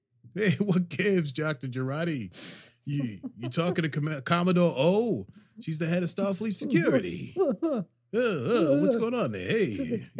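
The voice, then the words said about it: Bad Brooklyn-style celebrity impression. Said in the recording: “Sounds like how we would have said like our teacher's name in high school in Brooklyn ... Sounds like a bad John Travolta impersonation.”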